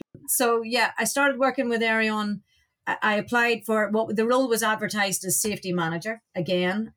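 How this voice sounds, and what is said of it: Irish accent. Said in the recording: “you can hear from my accent I'm I'm I'm not a US citizen and I'm not from the US ... You've got an Irish accent”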